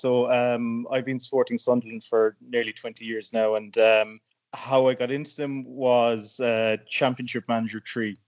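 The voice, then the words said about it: Irish accent. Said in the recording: “I'm hearing by your accent that you're Irish”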